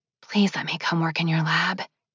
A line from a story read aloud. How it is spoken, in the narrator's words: Olive was whispering